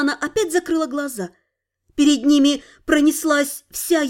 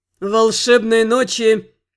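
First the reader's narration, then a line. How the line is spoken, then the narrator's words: Sarcastic laugh. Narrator (Russian): Сид саркастически рассмеялся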